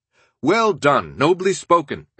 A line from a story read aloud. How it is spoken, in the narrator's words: exclaimed